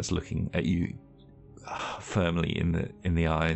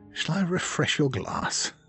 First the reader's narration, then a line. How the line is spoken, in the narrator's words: I'll sigh and say